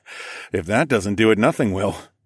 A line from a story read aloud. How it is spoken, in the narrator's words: chuckled